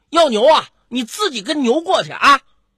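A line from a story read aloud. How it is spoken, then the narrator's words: Humiliated anger. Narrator (Chinese): 任晓恼羞成怒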